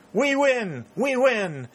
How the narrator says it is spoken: Dick and Pennington shouted with him

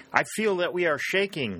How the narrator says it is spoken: he shouted in the ears of Warner

